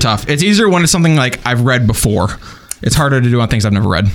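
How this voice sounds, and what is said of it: Usual voice. Nothing is said of it.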